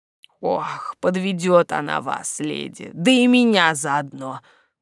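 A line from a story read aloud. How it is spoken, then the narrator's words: Sighing. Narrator (Russian): вздохнул садовник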